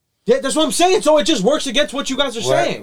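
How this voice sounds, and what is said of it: Yelling, loud passionate voice. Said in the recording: “Why are you yelling? ... I'm just getting fucking passionate.”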